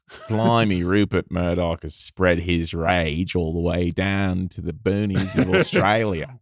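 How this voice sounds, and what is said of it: Convincing put-on Australian accent. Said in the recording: “that is a really good Australian accent ... I like it because, you know, it's not like you're trying too hard.”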